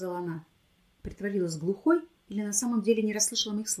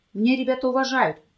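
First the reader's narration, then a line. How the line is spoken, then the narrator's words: Shout. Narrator (Russian): крикнул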